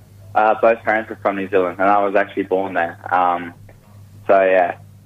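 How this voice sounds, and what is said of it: English accent. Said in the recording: “We can hear the English accent.”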